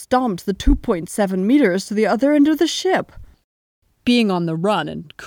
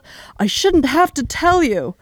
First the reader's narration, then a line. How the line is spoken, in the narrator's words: he just snarled